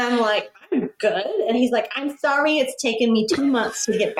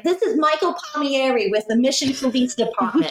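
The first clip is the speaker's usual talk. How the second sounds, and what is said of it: Imitated heavy Northeastern US accent. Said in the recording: “he's got this heavy Northeastern accent, right? He sounds like he's from NYPD Blue.”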